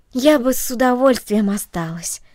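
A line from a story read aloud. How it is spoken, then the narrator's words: Plain. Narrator (Russian): сказала она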